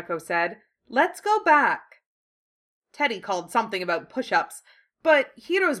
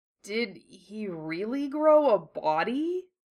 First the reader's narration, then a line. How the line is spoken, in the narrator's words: Hiro asked weakly